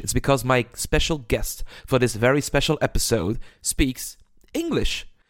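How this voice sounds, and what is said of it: Non-native English accent. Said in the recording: “now I'm speaking English. I'm very sorry for my accent”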